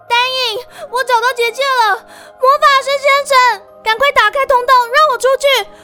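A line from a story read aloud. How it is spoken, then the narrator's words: Shouting out. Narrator (Chinese): 渊羽终于大叫出声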